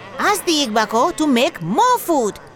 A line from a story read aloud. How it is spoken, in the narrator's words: they yelled